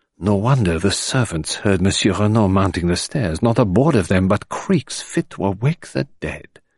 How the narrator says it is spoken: he whispered with a grimace

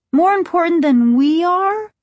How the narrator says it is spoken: Margaret cried

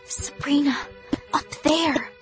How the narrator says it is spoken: I whispered

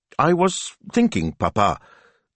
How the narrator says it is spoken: she said, her voice carefully casual

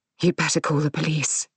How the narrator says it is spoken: she says, her voice tight

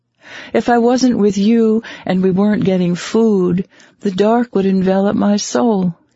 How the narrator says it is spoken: he said cheerfully

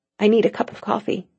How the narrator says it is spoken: she murmured

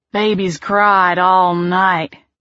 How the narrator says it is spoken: he said wearily

